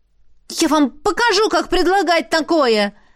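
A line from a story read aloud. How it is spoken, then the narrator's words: Angry shout. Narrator (Russian): Гневно выкрикнула я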